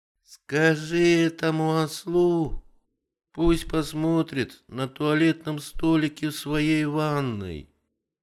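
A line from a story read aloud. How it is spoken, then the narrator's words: Lazy advice. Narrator (Russian): лениво посоветовала новая жена господина Корта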